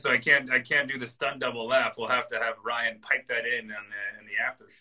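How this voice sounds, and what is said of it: Hoarse, nearly lost voice. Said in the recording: “I lost my voice”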